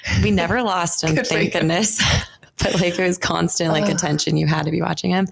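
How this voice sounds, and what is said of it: Scratchy, strained voice. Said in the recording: “my voice is kind of scratchy ... You've probably been screaming.”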